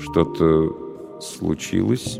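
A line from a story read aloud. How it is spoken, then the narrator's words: Slow question. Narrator (Russian): медленно спросил он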